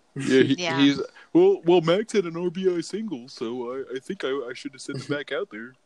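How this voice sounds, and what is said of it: Imitates another person's voice. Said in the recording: “That's my Davey impression. ... I couldn't even tell. I thought he was here for a minute.”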